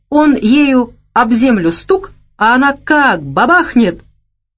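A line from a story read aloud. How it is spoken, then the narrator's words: Laughing uncontrollably. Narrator (Russian): Он снова закатился от хохота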